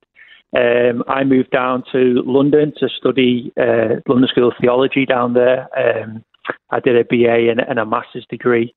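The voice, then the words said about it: English accent. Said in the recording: “People can hear an English accent.”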